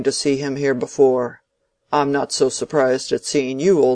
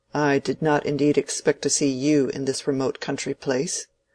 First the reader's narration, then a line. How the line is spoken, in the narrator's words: Bulstrode coldly saying